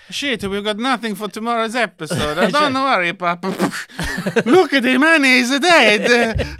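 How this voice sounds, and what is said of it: Bad Brazilian accent, sounds Italian. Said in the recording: “I mean, that is Italian. The worst Brazilian accent. ... That was more Italian.”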